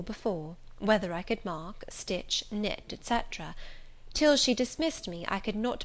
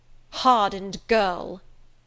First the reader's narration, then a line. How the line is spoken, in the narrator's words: exclaimed Miss Scatcherd